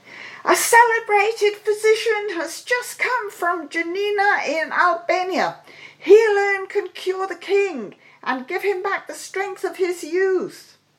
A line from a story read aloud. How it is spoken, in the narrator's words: cried